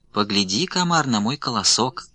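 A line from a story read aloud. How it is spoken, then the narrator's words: Sugary sweet little voice. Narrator (Russian): Говорит травинка сладким-присладким голоском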